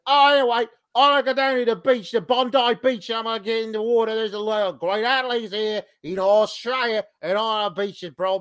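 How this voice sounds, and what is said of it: Imitated thick Australian accent. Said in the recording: “his Australian accent is fairly thick in the States ... being back in Australia for just a few days really thickened it up ... you could barely understand some of the stuff he was saying”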